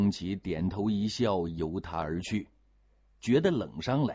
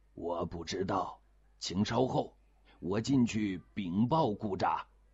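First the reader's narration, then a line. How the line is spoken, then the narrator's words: Flat, indifferent voice. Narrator (Chinese): 桑措淡淡地说了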